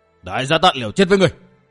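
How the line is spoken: Assassin's fierce shout. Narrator (Vietnamese): Tên đại sát thủ quát

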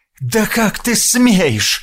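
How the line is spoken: Exclaimed. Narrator (Russian): воскликнул Россос

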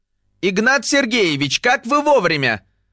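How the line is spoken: Harried exclamation. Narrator (Russian): воскликнул взмыленный интерн

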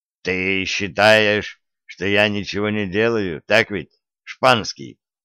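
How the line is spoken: Muffled, dull. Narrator (Russian): Маркус глухо сказал

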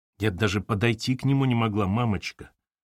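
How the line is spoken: Soft childlike crying. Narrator (Russian): ответила Катерина и опять заплакала тихонько по-детски

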